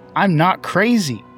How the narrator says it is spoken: yells into the phone

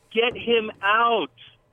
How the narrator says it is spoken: My wife yelled

